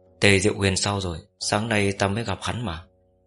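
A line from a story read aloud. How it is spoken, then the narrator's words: Frowning question. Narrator (Vietnamese): Cố Mạch khẽ nhíu mày hỏi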